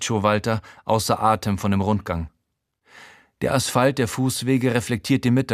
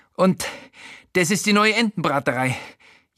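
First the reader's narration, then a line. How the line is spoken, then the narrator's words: Gasping. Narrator (German): japst er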